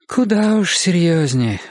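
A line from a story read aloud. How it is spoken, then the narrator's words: Sighing. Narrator (Russian): вздохнула Мария Семеновна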